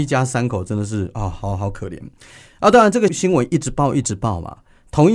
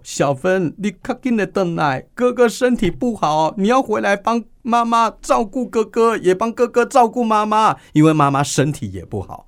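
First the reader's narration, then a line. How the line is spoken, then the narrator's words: Crying mother. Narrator (Chinese): 妈妈一边哭一边讲说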